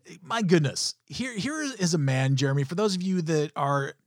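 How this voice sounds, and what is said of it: Usual voice. Nothing is said of it.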